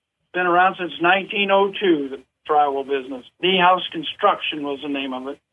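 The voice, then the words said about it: St. Louis accent. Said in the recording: “I can tell after hearing you talk that you're from St. Louis. You've got that St. Louis accent.”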